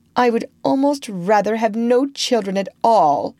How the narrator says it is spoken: she said disdainfully, or scornfully

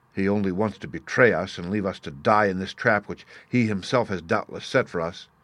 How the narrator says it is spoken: Hagen frowned still more deeply, he muttered

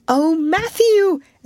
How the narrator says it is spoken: exclaimed Anne

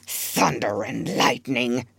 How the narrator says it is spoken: Ben Ali muttered

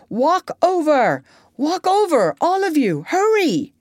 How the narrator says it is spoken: the big one shouted to the doctor

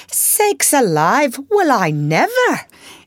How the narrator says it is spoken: Hannah came in to exclaim

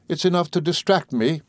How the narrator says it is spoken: cried my mother

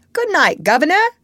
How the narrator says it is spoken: my rider called out in a cheery voice

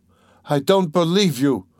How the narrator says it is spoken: cried Dunya, completely losing her head

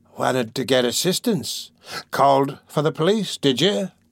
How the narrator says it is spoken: sneered the Jew

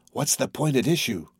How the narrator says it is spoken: Carol whispered to Kennicott

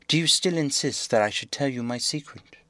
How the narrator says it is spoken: the prince said sadly

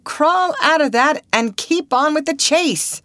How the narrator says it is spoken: cried the manager

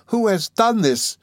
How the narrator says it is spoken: exclaimed Miss Mills

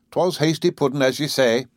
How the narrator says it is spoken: said her husband

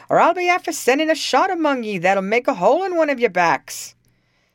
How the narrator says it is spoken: cried Tim

